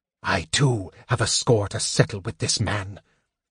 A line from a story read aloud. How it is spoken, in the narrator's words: the mage hissed